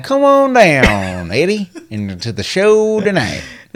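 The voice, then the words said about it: Put-on Southern old-miner accent. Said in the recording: “a southern accent? ... That's southern, but that's more of, like that old miner guy. ... the crazy miner.”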